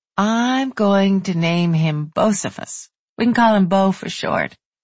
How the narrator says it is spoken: Danielle said sleepily

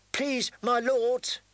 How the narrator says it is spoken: she pleaded

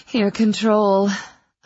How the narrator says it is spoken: I gasped

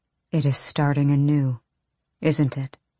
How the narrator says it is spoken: Hulan murmured

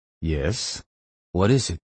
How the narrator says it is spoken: In a sleepy voice that he found hard to fake with the adrenaline in his bloodstream, he said

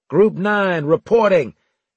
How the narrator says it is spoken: I called out

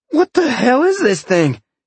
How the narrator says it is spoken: Sean gasped

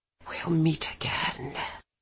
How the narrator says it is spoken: he whispered in my ear

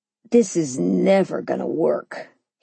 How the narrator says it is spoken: he muttered

